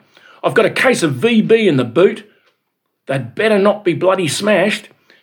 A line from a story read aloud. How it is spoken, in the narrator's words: cried